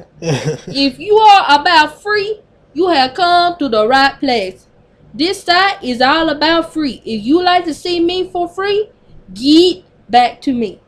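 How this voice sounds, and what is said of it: Put-on New Orleans accent. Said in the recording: “I gotta do this in a New Orleans accent.”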